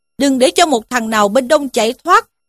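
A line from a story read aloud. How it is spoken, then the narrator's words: Shouted command. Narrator (Vietnamese): miệng quát lên rằng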